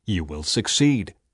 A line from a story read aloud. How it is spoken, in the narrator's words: said the Lord